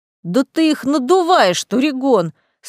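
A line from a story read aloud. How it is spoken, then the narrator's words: Indignant exclamation. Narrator (Russian): снова возмущенно воскликнул император, когда очередная его форель оказалась меньшего размера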